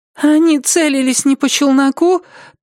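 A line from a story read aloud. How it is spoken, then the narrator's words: Thin little voice interjecting. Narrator (Russian): тоненьким голоском вмешалась Радшприт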